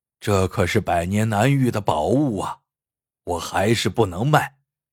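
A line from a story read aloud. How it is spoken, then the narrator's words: Smiling. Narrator (Chinese): 老海只是笑了笑，说道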